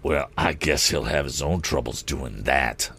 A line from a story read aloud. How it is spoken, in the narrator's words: sneered Morse